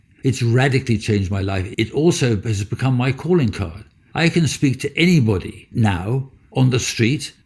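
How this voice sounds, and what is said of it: Posh-sounding accent. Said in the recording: “my accent normally, for our American friends, you can probably hear that I sound rather posh... I sound too posh”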